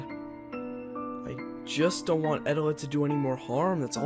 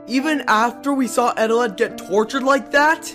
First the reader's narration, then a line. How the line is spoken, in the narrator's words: I yelled